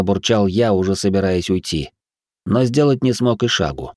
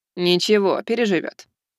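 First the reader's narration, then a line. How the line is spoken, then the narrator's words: Rector's snorting remark. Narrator (Russian): хмыкнул ректор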